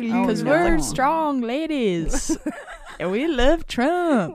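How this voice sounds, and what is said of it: Impression of pro-Trump women singers. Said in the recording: “That's just a great impression.”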